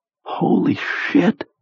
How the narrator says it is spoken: he whispered

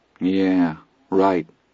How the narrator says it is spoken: Charlie said miserably

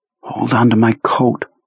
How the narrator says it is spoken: Jonesy whispered

